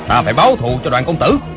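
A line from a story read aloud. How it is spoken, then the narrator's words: Grieving, furious shout. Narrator (Vietnamese): Hộ vệ tên Phó Tư Quy, vừa đau lòng vừa tức tối, quát lớn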